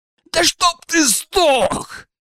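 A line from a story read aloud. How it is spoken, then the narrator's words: Roaring. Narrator (Russian): взревел Дракус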